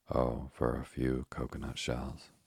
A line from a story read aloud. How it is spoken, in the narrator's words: sighed Ernest